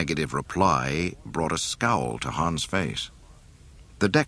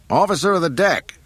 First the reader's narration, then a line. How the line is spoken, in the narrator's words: Han yelled